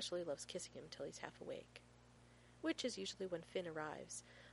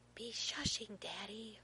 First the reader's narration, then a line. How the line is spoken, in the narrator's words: Finn stage whispers